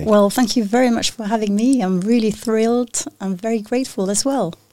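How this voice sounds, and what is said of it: French accent. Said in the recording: “there's a French accent.”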